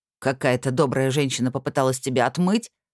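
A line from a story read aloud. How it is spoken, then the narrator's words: Snorting. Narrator (Russian): хмыкнул Бармасур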